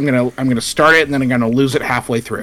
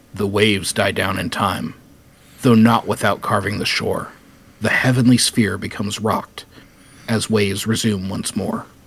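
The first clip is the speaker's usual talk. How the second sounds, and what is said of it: Dramatic narrator voice. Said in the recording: “do my best narrator voice.”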